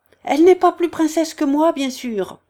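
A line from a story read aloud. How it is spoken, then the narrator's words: Sharp, bitter shout. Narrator (French): cria la sœur aigrement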